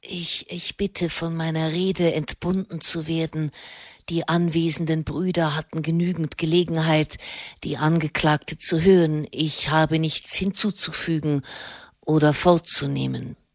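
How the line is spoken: Hoarse voice. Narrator (German): sagte er mit heiserer Stimme

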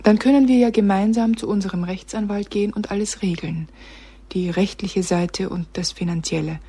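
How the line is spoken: Plain. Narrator (German): sagte Sibylle

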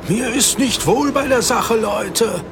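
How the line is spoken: Shouting against wind. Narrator (German): rief Matthäus gegen den Wind an, der schnell stärker geworden war

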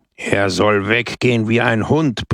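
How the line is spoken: Roar. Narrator (German): brüllte Brusco

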